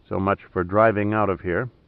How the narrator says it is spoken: he said quietly to Julia

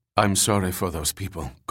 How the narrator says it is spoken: Kovach said in a subdued tone

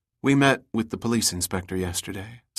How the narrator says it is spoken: Summer said quietly

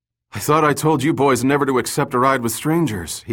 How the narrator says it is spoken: he gasped

